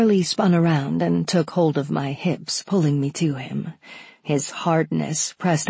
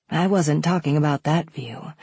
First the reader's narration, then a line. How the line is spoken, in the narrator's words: I admitted huskily